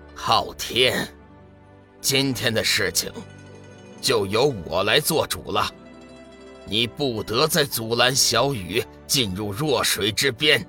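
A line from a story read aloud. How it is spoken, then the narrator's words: Deep, low voice. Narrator (Chinese): 沉声道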